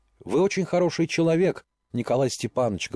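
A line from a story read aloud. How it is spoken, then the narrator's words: Plain. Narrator (Russian): говорит она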